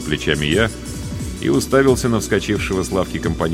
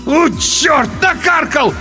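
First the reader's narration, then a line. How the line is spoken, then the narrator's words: Loud howl. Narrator (Russian): В голос взвыл тот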